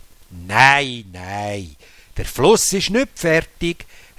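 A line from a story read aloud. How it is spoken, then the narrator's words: Calm captain. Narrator (German): hat der Kapitän ruhig gesagt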